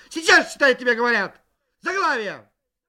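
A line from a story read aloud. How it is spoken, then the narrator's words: Shouted. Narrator (Russian): она кричала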